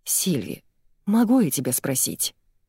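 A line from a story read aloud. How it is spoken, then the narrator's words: Whisper. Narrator (Russian): Она опускается до шепота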